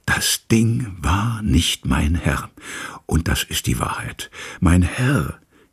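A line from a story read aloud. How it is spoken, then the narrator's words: Dropping into a whisper. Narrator (German): verfiel ins Flüstern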